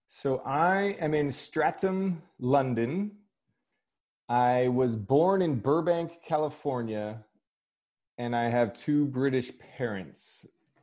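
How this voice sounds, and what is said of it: American accent. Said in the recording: “the listeners will be detecting an American accent here”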